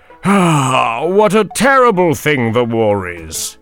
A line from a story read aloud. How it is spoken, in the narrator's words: sighed Mr